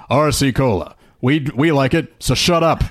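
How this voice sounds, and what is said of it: Commercial narrator voice. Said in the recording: “my narrator voice”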